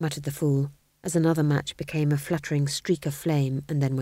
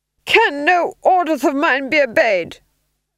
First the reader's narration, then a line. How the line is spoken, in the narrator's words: he screamed